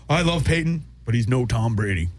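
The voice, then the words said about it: Imitates another person's voice. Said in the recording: “my Steve Young impersonation”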